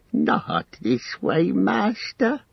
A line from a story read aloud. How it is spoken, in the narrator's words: he pleaded